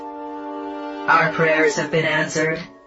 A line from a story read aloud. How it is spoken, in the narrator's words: it said in a monotone voice that still somehow managed to express excitement